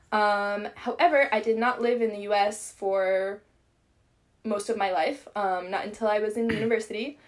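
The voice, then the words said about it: American accent. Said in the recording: “you may be able to tell that I'm American from my accent.”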